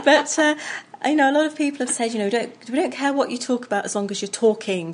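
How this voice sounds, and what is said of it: Charming English accent. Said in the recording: “I love your accent ... Because it is very charming.”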